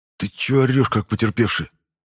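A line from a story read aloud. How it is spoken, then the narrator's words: Irritated hiss. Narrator (Russian): зашипел я раздраженно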